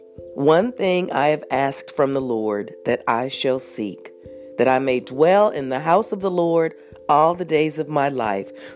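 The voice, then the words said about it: Slightly sick, off-sounding voice. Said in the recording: “I'm a little sick today, so my voice is a little off”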